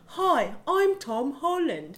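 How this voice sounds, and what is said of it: Put-on British accent. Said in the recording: “Good British accent. ... sound like Potter Puppet Pals.”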